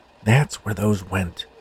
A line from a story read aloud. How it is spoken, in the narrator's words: he whispered to himself